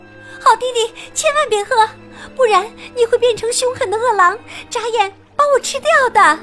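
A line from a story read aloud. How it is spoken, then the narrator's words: Girl's hurried shout. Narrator (Chinese): 小姐姐赶紧大喊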